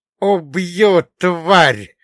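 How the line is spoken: Vicious hiss. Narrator (Russian): злобно прошипел он

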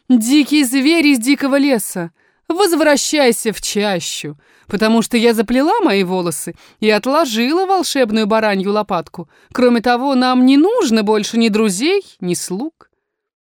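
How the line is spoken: Woman laughing, replying. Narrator (Russian): Женщина засмеялась и ответила

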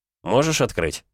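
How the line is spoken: Plain. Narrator (Russian): спросил Нестор

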